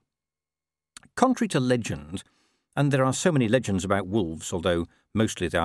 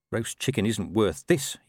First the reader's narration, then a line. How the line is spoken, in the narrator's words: muttered